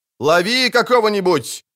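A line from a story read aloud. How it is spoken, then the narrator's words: Shouting. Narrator (Russian): крикнул Кагыр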